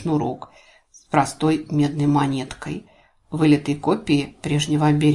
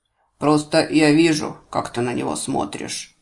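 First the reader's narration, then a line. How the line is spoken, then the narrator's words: Muffled snort. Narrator (Russian): глухо хмыкнул Ларс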